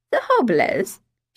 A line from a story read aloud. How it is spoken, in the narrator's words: she said with an awkward laugh